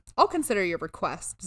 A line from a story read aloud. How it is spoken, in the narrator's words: Zeus replied